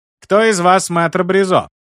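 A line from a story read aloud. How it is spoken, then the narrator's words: Loud smirking jester. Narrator (Russian): Королевский шут, криво усмехнувшись, громко произнес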